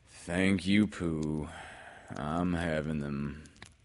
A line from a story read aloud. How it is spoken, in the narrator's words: said Eeyore gloomily